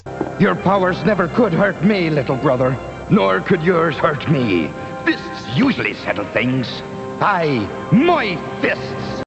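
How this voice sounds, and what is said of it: Irish accent, character voice. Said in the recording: “he's not actually Irish, in case you couldn't tell ... pretty good ... Accent”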